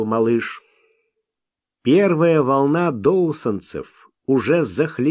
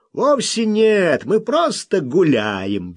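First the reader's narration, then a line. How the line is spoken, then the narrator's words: Cheerful objection. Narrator (Russian): весело возразил Солтман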